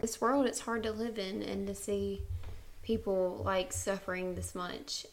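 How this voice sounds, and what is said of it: Emotional, near-tearful voice. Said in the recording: “I'm sorry I'm getting emotional”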